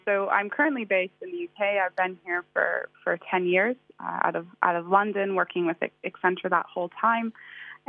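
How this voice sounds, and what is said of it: American East Coast accent. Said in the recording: “I always cringe when I hear my accent ... I don't sound like a Londoner and very British ... I did grow up in the States, in the East Coast. So outside of Boston”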